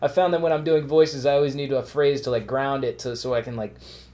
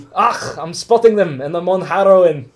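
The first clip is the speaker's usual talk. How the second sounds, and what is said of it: Put-on Scottish accent. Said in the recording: “That's the best way to get your Scottish accent down... if I'm doing Scottish”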